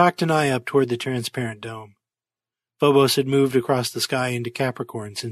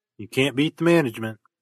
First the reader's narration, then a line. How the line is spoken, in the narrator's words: chuckled Johnner